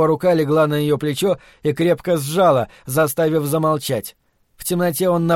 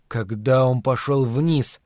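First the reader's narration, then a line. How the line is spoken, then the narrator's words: Mumbled. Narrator (Russian): пробормотал Ларри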